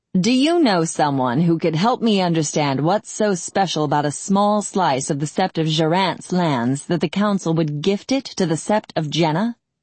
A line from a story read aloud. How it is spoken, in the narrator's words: Tired beyond reason, and still trembling with the remnants of pain, Foran laughed harshly and said